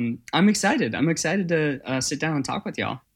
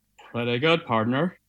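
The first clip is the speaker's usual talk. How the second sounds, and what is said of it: Cowboy movie-star drawl. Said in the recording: “Is that a cowboy impression? ... Yeah, it's my best John Wayne.”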